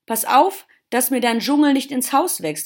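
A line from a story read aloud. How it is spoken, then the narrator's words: Old gardener calling out. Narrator (German): rief der alte Gärtner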